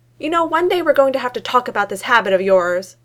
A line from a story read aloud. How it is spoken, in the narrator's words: shouted out the window